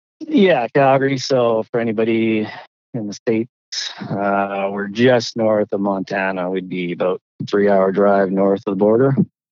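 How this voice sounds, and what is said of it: Slight Canadian accent. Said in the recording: “if people can't tell by your accent, you are Canadian ... A little bit, yeah.”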